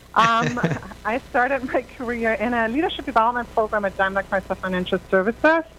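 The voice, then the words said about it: Slight German accent. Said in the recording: “I'm from Germany originally, as you might deduce from my slight accent”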